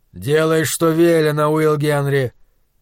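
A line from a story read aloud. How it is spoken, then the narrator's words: Dull hollow voice. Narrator (Russian): сказал глухим голосом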